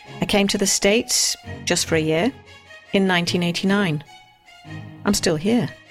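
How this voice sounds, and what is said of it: British accent. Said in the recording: “I'm a Brit ... My accent makes it sound like I know what I'm talking about”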